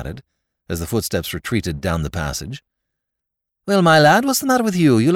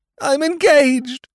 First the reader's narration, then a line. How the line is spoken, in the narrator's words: groaned his lordship